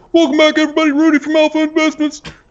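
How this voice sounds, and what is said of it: Imitates another person's voice. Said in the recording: “that sounded like Rudy just now ... That was pretty good ... It sounded just like him ... That was a really good impression”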